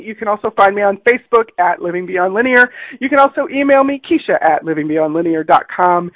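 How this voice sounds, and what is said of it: Lower, husky radio-like voice. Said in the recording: “my voice sounds a little bit different today. Yes, body has been working through some stuff this week, so we're playing with that sexy radio voice”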